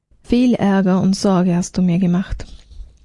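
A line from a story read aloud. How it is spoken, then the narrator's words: Sighing speech. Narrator (German): Die Magd sagte mit einem Seufzer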